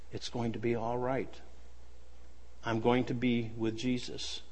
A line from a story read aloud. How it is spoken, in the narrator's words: With tears gently rolling down her cheeks, she said